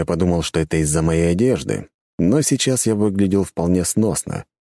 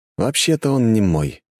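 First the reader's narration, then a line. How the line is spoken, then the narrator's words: Weary sigh. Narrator (Russian): с чувством дежавю вздохнул я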